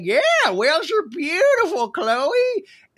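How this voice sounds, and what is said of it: Imitates another person's voice. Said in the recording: “your Caitlyn Jenner impression”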